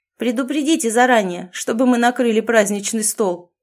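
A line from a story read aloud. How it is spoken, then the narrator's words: Mocking shout. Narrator (Russian): с издевкой выкрикнул полноватый парень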